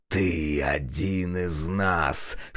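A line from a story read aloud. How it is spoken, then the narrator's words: Hoarse voice. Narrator (Russian): хрипит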